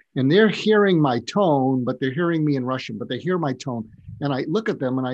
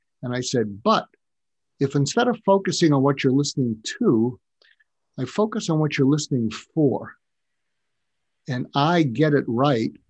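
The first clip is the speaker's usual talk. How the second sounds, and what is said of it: Smooth public radio announcer voice. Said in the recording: “I switched to my FM NPR voice, my tone.”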